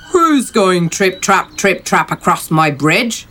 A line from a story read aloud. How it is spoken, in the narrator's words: roared the troll